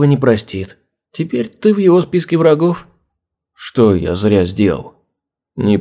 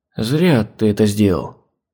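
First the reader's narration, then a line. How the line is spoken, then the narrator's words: Woman sighing. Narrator (Russian): вздохнула она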